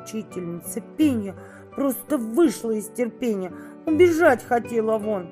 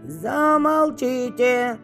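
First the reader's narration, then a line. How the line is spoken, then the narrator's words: Loud bass shout. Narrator (Russian): на весь класс басом выкрикнул Тарас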